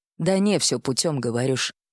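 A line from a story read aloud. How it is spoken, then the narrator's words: Muttered into a mug. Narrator (Russian): пробормотал куда-то в кружку отец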